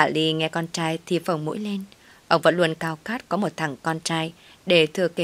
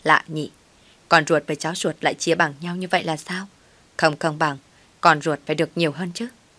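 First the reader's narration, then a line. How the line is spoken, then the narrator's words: Resentful muttering. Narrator (Vietnamese): Mai mới lẩm bẩm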